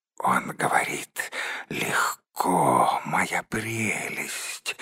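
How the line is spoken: Spiteful hiss. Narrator (Russian): злобно прошипел Голлум

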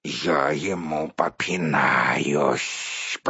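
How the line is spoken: Angry hiss. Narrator (Russian): прошипел разгневанный паук

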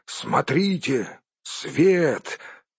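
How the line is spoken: Exclaiming. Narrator (Russian): Балин воскликнул

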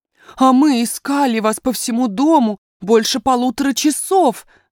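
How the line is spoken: Nanny exclaiming. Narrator (Russian): воскликнула няня

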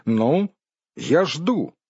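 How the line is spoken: Forced stern confident voice. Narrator (Russian): Бильбо постарался, чтобы его голос прозвучал строго и уверенно, хотя сам вовсе не был уверен в благополучном для себя исходе игры

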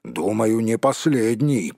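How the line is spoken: Mumbling grumble. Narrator (Russian): пробурчал Том

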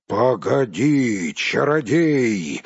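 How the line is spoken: Roaring. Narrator (Russian): взревел Бьорн

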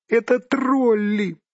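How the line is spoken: Squeaky exclamation. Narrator (Russian): пискнул Бильбо

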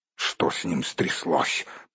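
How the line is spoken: Grumbling. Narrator (Russian): проворчал Торин

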